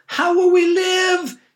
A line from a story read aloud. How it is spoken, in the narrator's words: wailed